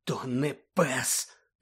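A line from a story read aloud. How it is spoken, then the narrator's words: Pained groan through gritted teeth. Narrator (Ukrainian): простогнав Рон, скриплячи зубами від болю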